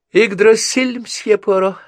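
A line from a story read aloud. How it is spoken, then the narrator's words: Laughing. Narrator (Russian): она засмеялась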